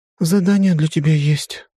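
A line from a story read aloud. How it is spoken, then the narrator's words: Sighing. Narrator (Russian): вздохнула Амайи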